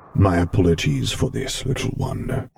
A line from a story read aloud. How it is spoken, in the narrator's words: Vader rumbled softly